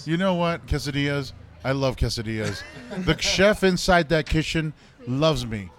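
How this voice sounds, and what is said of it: Imitates another person's voice. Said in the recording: “This is my impression of Donald Trump.”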